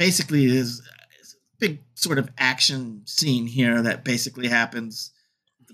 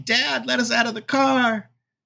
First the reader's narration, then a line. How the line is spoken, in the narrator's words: The daughters are in the backseat screaming